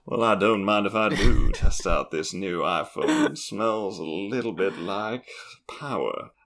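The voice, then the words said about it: Imitates another person's voice, put-on accent. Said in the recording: “frank underwood ... slightly lost the accent though because I was so excited”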